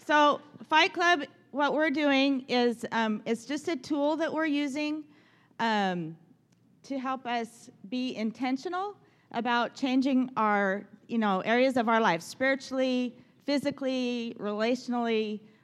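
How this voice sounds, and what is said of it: Shaky, nervous-sounding voice. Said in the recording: “You like my shakiness? We're all shaking. ... my voice is shaky.”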